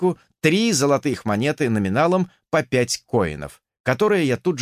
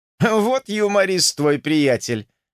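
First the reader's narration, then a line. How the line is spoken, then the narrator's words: Laughing. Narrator (Russian): действительно рассмеялся Венс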